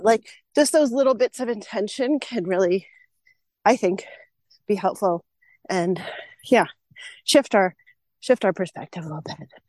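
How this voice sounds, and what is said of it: Out of breath speaking. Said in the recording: “I'm really out of breath. I just walked up a big hill.”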